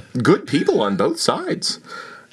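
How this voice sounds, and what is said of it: Mixed comic character impression. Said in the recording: “what accent is that? ... my uh, berries and cream boy meets Donald Trump impersonation”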